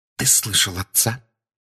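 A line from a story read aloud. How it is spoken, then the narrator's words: Whispered. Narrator (Russian): прошептала миссис Уизли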